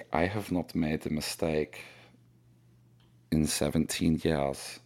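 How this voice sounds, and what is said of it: Attempted German accent, admittedly poor. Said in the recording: “Snowball has a German accent... That's not a German accent.”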